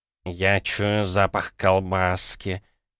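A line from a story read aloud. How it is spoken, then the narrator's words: Cat moaning. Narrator (Russian): простонал кот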